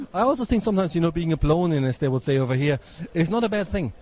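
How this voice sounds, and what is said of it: Foreign accent in English. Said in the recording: “we sound like Klingons. It's just the accent”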